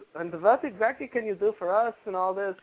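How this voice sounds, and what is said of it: Put-on German accent, poorly done. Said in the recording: “that was German accent, of course, because I can't do it”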